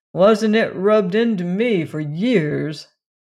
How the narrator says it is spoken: Barney laughed bitterly

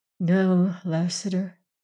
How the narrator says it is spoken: she replied sadly and low

